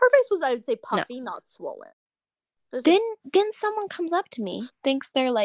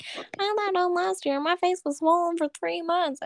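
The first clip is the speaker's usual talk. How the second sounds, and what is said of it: Put-on Southern accent. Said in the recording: “I love how we use southern accents for people that we talking about people that we don't like.”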